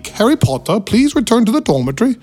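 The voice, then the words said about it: Poor put-on English accent. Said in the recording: “my horrible English accent”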